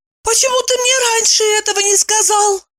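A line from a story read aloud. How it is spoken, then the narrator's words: Exclaiming. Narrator (Russian): воскликнула Евдокия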